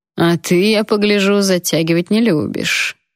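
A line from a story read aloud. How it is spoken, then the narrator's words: Mocking mumble. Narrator (Russian): насмешливо пробубнил он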